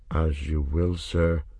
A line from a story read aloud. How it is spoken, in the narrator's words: the isle man said gloomily